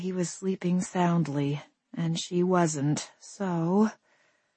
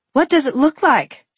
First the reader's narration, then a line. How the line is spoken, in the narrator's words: she snapped